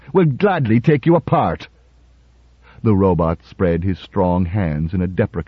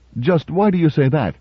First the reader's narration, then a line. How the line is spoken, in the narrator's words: Cutie laughed